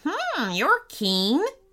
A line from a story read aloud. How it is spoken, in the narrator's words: giggled the imp